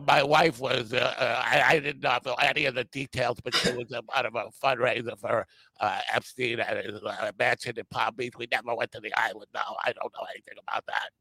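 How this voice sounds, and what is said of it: Imitates another person's voice. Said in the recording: “That was a good Clinton. That was a pretty good Clinton impersonation.”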